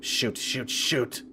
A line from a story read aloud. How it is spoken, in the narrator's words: I muttered under my breath